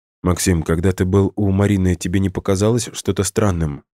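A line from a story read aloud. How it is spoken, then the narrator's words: Plain. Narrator (Russian): спросила Ирина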